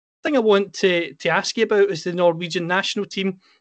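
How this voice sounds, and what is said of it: Scottish accent. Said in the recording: “As you can tell with my accent, I'm from Scotland.”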